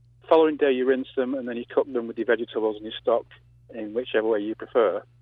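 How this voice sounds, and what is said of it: English accent. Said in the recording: “You may detect from my accent that I'm from England.”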